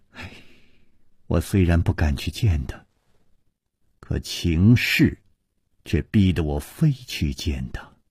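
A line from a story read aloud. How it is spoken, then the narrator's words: Sighing. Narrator (Chinese): 他只是叹着气接着说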